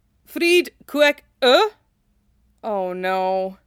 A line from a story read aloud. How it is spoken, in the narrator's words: Cloud groaned